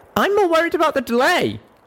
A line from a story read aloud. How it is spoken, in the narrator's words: I called out